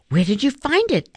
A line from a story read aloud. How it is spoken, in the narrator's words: asked Yoon-hee breathlessly